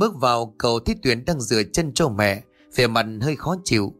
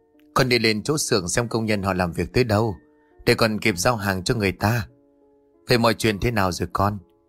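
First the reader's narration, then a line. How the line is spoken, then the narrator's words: Sighing reply. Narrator (Vietnamese): Toàn thở dài đáp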